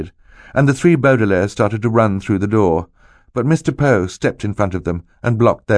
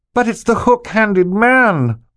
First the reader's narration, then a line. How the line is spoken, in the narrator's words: Violet shouted